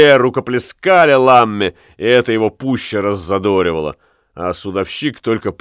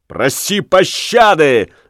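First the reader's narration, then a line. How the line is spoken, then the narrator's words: Furious shout. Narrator (Russian): в бешенстве крикнул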